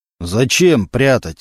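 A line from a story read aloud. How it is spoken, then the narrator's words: Deep bass. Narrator (Russian): забасил со своего места Мантуленко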